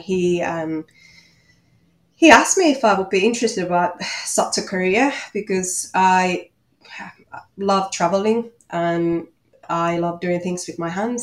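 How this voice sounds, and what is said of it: Finnish accent. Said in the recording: “you might hear from my accent that I'm from Finland”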